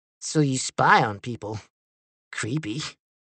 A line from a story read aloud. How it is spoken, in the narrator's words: Lincoln said